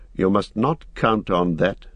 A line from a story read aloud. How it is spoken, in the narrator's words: said Strider sharply